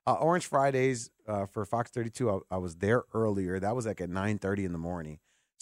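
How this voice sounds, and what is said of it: Strained worn-out voice with cough. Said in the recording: “that's why I think my voice is like this ... the cough”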